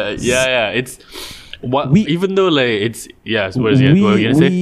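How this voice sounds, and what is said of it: Usual voice. Nothing is said of it.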